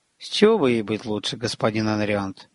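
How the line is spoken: Muttered, magician. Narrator (Russian): буркнул маг

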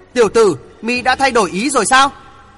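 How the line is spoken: Loud shout. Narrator (Vietnamese): Lão quái vật thét lớn

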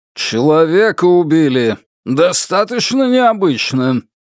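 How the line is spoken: Gruff bark. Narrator (Russian): рявкнул начальник Джан

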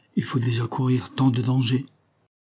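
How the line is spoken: Timid voice. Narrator (French): dit d'une voix timide la charmante Rosalie

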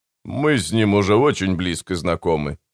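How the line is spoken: Snorting. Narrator (Russian): фыркнул Мартин

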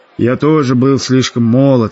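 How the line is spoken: Sighing. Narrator (Russian): вздохнул американец

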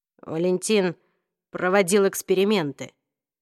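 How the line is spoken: Dry, tense. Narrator (Russian): сухим напряженным голосом произнес Джейс

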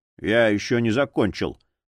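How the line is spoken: Grumbling. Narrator (Russian): проворчал Боул

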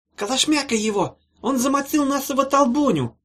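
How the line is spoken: Shrill squeak. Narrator (Russian): Запищал кто-то

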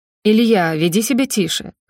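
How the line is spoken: Stern. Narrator (Russian): строго проговаривает

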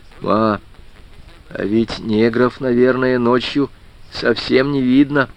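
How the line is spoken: Sudden quiet speech. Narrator (Russian): Женька вдруг тихо сказал

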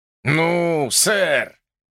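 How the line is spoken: Chuckling. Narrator (Russian): Кинни хохотнул

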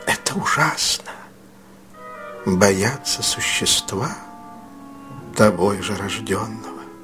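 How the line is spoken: Almost inaudible whisper. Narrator (Russian): Ее голос понизился до шепота, стал почти неслышным

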